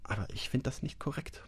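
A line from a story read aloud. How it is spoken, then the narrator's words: Man muttering quietly to himself. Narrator (German): murmelte er leise vor sich hin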